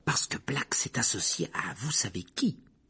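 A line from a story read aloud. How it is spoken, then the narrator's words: Whispered. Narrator (French): chuchota Madame Rose Merton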